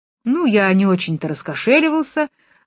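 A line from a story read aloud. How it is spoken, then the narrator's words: Happy, smiling. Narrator (Russian): радостно улыбнулся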